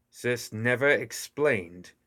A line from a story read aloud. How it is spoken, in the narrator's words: she grunted as she struggled